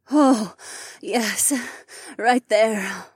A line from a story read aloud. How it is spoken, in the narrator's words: Nora breathed as she rocked back and forth